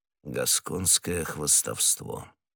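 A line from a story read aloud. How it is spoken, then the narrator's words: Mutter. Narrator (Russian): пробормотал незнакомец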